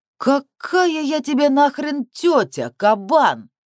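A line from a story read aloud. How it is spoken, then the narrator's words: Offended howl. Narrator (Russian): оскорбленно взвыла мама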